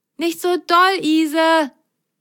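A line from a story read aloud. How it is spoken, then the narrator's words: Call. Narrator (German): rief Lou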